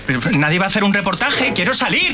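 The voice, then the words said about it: Shouting. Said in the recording (Spanish): “no grites”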